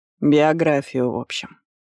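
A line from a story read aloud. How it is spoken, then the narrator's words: Summing up. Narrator (Russian): подытожила она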